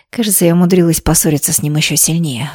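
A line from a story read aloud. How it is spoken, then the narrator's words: Sighing. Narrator (Russian): вздохнула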